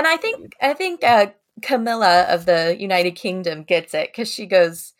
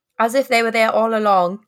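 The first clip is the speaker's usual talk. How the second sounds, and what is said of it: Put-on accent. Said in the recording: “I did tell my listeners I would use more accents”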